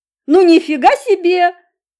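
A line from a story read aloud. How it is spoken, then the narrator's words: Exclaiming. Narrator (Russian): воскликнул Володька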